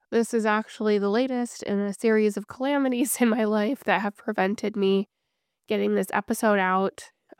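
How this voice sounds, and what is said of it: Sick, congested voice from cold. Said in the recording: “as you can, I'm sure, hear in my voice, I am under the weather ... now I have this cold”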